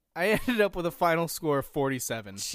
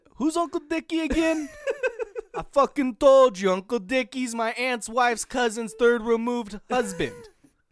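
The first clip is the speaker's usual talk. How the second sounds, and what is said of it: Good put-on Italian accent. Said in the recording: “You have a good Italian accent.”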